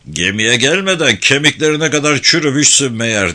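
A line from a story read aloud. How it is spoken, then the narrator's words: Roaring. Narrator (Turkish): diye kükredi Bay Pike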